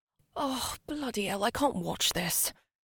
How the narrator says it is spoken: Gemma groaned to Sam

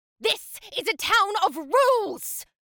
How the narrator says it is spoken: Caroline screamed

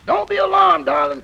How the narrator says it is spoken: cried the young American engineer

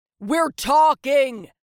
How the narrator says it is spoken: He shouted

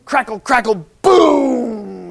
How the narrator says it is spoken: the thunder bellowed

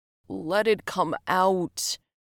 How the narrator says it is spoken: groaned

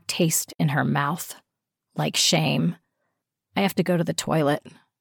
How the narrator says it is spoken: she mumbled

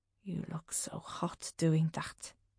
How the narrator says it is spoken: breathes, his voice deep and rough

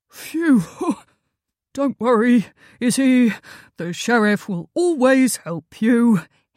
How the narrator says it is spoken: sighed, getting up from the ground

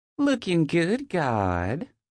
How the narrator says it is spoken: she drawls out, turning on her southern charm

